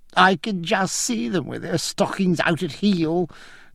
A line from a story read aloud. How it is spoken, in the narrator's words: cried Francis with a coarse whoop